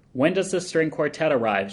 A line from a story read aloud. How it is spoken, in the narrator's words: she hollers through the cellar door